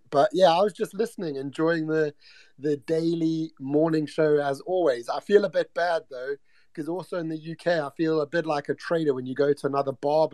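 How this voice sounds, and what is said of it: Mixed British and African accent. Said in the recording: “I love your accent already ... I'm calling from the UK, brought up in Africa, but I got many a heritage, so I've got a bit of a concoction of an accent”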